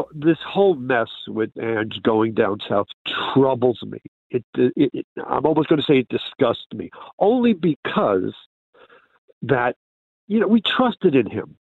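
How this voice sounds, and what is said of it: New York City accent. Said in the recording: “You're from New York City. ... we can tell from the accent”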